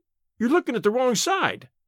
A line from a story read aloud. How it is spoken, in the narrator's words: he shrieked